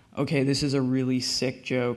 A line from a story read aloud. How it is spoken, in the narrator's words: he said